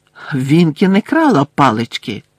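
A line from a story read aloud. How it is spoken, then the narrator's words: Sharp denial. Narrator (Ukrainian): різко заперечила Герміона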